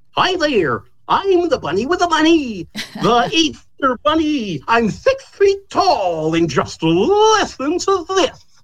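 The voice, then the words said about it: Cartoonish Easter bunny character voice. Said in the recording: “it came out sounding something like this ... in a straight voice”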